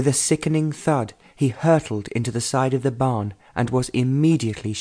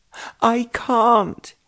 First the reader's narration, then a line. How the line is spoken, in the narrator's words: he shrieked with a look of terror on his face